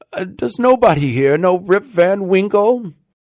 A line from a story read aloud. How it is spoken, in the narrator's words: cried out in despair